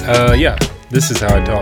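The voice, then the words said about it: Put-on podcast voice. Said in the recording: “podcast voice ... You also have a podcast voice”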